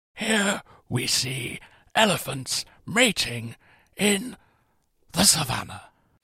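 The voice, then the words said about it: Imitates a nature documentary narrator. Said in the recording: “I'm going to do an impression for you ... It's David Attenborough.”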